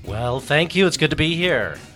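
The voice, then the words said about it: Polished radio announcer voice. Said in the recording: “He's already turning on the radio voice.”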